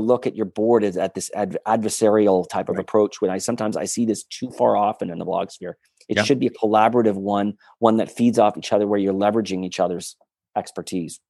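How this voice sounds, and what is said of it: Strong Northern US accent. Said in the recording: “a fellow Northerner ... Fargo ... a better Northern accent than I do”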